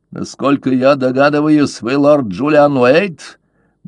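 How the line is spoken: Rough question. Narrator (Russian): грубо спросил он

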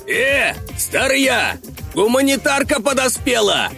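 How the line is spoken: Shouting. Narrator (Russian): кричал тем временем упырь

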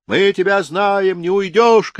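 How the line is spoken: Shouting crowd. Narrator (Russian): кричали

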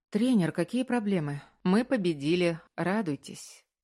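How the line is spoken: Tired reply. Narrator (Russian): Устало ответил Маркус

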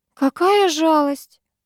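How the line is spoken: Feigned sigh. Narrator (Russian): притворно вздохнула Амелия

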